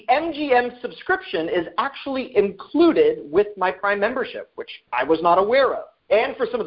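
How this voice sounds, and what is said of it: Usual voice. Nothing is said of it.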